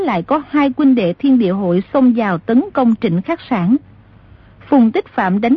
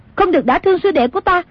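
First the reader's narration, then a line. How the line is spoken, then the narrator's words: Shouted. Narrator (Vietnamese): Nàng quát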